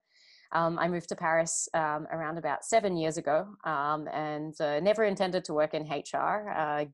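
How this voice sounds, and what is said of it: Australian accent, slightly mixed. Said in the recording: “my accent's a little bit messed up these days, but I am originally from Sydney, Australia.”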